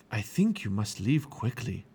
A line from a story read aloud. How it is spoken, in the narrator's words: whispered the silk weaver